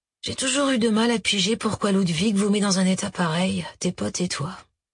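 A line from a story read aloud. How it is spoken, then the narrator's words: Sighing. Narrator (French): soupira Schneider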